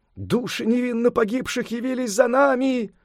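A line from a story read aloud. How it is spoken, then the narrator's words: Frantic screaming. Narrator (Russian): истошным голосом закричали они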